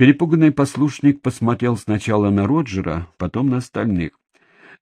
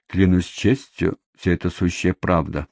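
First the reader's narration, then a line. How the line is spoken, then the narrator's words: Mutter. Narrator (Russian): пробормотал он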